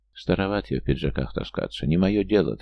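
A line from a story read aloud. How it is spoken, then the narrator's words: Quiet reply. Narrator (Russian): так же тихо ответил Кузьмичев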